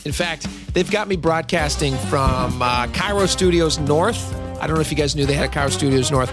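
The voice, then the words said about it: Scratchy, rough voice. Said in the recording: “my voice is a little bit scratchy, well, it is”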